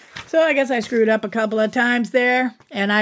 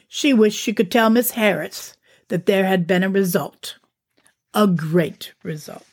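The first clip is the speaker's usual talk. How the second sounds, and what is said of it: Attempted British accent. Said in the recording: “I suppose that's not even a British accent, who knows ... in a different accent”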